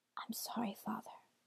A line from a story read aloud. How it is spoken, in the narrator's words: Hansel whispered